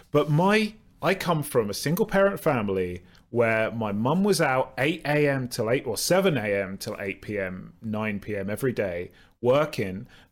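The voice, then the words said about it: Southern English accent. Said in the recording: “I've got a southern accent, so it always sounds like I'm middle class”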